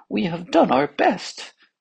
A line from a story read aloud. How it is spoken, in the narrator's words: said one of the physicians in a trembling voice